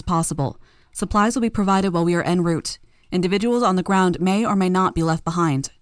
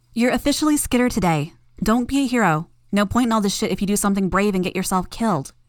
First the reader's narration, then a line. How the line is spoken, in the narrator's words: called out